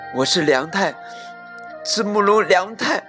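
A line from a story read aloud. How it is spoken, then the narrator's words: Panting heavily. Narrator (Chinese): 霸王龙喘着粗气说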